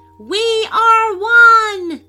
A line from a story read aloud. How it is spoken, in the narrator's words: they shouted all together in unison